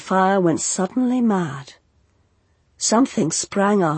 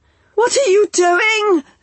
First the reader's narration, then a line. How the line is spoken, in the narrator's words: she shouted, panicked by his brute bulk and by the noise